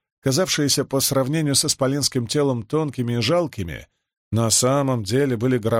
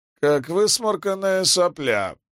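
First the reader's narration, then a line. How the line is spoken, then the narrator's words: Groan. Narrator (Russian): простонал Лопан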